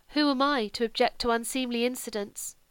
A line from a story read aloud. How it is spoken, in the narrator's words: asked sadly